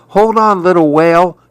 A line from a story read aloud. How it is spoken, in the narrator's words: Maribel pleaded